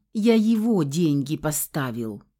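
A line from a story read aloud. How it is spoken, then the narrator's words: Remorseful, heavy sigh. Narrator (Russian): покаянно признался рыжий и тяжко вздохнул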